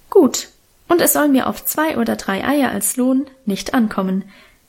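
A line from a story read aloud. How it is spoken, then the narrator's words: Plain. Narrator (German): sagte die Bäuerin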